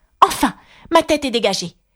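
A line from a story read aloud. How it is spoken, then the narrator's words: Delighted exclamation. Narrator (French): s'exclama-t-elle d'un ton ravi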